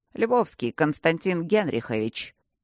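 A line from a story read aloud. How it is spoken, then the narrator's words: Dry clarification. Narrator (Russian): сухо уточнил Тандаджи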